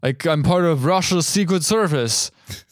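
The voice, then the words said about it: Put-on accent for a character. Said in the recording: “Accent is impeccable as always.”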